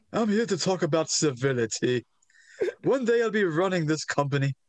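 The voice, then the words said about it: Pronounced British accent, Hunter Hearst Helmsley impression. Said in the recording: “in a very pronounced accent ... His British accent is adorable”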